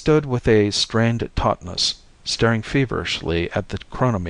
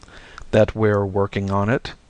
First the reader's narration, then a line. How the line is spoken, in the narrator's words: Bishop said dryly